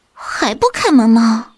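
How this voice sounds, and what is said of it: Quiet, protesting voice. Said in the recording (Chinese): “小声的抗议着”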